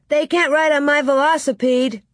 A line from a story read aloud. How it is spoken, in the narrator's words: Willie shouted